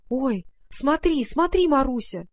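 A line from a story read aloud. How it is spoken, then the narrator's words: Exclaimed. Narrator (Russian): воскликнула Варя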